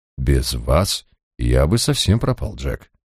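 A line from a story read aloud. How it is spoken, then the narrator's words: Quiet. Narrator (Russian): тихо произнес я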